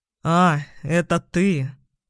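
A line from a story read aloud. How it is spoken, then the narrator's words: Surprised or disappointed drawl. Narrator (Russian): То ли удивленно, то ли разочарованно протянул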